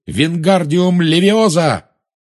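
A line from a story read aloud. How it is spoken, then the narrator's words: Shouted. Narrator (Russian): он крикнул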